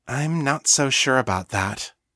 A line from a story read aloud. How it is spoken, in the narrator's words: said gently